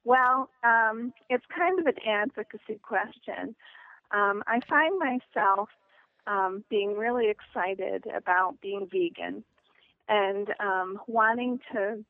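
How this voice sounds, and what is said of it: Unusual northern US accent. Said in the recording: “You sound like you're from Michigan ... I'm actually from upstate New York, living in New Hampshire ... It's a bizarre accent ... the combination of New Hampshire, New York makes Michigan”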